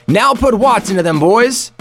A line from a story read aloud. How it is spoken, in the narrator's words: shouted to the troops